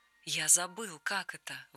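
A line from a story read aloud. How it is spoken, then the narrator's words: Breathless exhale. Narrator (Russian): выдохнул он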